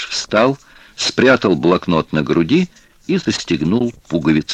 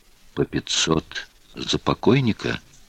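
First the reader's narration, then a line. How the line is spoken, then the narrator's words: Quiet asking again. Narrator (Russian): тихо переспросил Пашка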